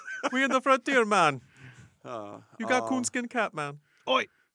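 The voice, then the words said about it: Put-on Jamaican accent. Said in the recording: “a Jamaican accent”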